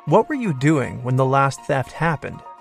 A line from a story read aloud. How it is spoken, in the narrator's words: he asked them